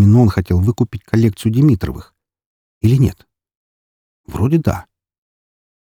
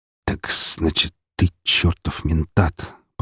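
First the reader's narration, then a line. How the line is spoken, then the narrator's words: Muttered. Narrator (Russian): пробормотал Серебряков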